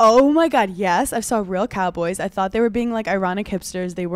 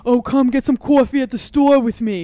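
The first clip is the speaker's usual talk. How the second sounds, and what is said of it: Put-on New York accent. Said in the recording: “New York accents”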